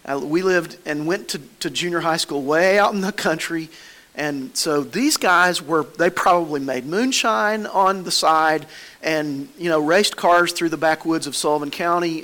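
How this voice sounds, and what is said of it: Non-Boston rural American accent. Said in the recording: “you can tell from my accent, I wasn't raised in Boston”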